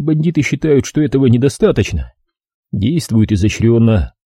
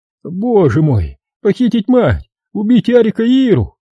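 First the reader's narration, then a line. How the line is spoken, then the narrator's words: Owl-like hooting moan. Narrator (Russian): он заухал, застонал ночным филином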